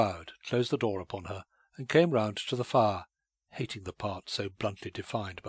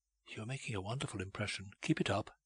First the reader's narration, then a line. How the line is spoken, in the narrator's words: On passing him, she whispered